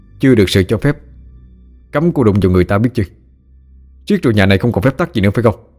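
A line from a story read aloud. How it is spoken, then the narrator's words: Annoyed, stern. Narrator (Vietnamese): Ba Nghĩa khó chịu, nghiêm giọng nói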